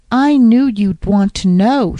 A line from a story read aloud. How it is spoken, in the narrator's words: exclaimed breathlessly